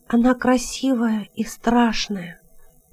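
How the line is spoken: Whisper. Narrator (Russian): прошептал Тем

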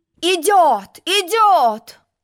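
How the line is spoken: Shouted. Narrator (Russian): крикнул пион

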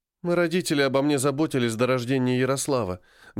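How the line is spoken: Sighing mother. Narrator (Russian): вздохнула мама

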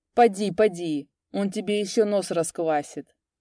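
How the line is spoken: Mocking mutter. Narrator (Russian): насмешливо бормотал он

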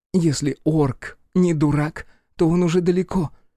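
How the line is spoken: Sighing. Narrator (Russian): вздохнула Карифа

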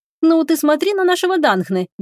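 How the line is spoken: Cheerful. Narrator (Russian): весело проговорила Теруми

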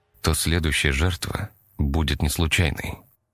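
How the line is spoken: Quiet. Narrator (Russian): тихо сказал он

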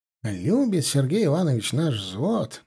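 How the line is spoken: Mumbling while chewing. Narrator (Russian): жуя пробормотал он

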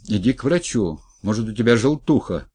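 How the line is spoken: Shout after someone. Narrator (Russian): крикнул вслед напарнику Геха

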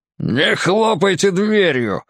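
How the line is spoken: Hateful growl. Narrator (Russian): с ненавистью рыкнул водитель

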